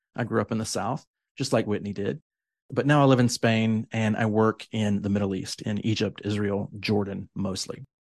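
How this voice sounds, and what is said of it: American southern accent. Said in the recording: “I'm American, as you can probably tell from my accent, my southern accent specifically”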